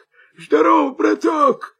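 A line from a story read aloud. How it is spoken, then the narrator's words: Wolf's hoarse voice. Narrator (Russian): хрипит волк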